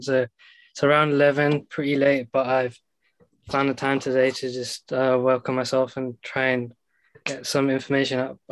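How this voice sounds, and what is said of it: London accent. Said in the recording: “I actually live in London, as you can tell by my accent”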